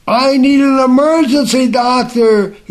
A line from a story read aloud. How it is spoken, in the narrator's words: he yelled loudly